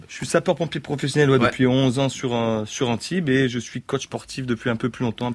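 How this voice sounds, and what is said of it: Southern French accent. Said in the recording (French): “vous avez un accent du sud un peu quand même.”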